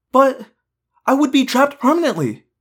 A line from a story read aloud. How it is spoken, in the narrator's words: I cried